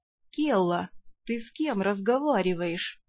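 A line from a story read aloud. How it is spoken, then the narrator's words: Ingratiating question, a lord. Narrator (Russian): вкрадчиво поинтересовался повелитель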